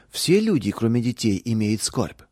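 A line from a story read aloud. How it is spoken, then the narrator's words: Plain question. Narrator (Russian): спросила Наташа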